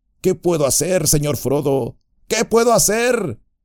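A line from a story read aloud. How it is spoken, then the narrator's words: Shouted. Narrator (Spanish): gritó Sam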